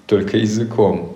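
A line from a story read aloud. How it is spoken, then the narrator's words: Laughing. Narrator (Russian): рассмеялся Огнегрив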